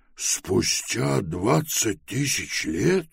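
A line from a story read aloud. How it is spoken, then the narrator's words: Trembling voice. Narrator (Russian): дрожащим голосом произнес Пилород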